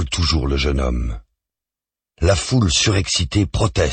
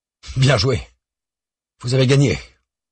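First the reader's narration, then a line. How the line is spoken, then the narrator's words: Bitter slipped-in remark. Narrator (French): glisse d'un ton amer Jean Dupeux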